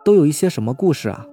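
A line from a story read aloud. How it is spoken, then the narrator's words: Plain. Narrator (Chinese): 我一问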